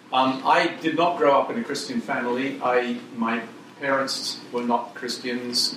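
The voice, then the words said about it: English accent. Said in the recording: “You can tell I'm an Englishman from my accent, even though I've lived in America for 40 years or more now. I don't seem to have lost my accent”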